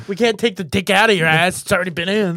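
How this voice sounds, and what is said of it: Brooklyn accent. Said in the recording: “you sound like a guy from Brooklyn right now.”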